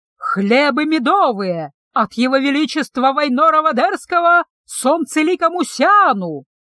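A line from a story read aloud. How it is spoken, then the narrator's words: Loud herald's proclamation. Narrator (Russian): Глашатай громко выкликал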